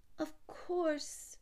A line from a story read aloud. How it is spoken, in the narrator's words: stammered